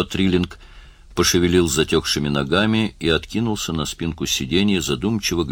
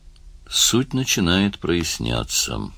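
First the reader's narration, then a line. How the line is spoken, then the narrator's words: Muttering. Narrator (Russian): пробормотал он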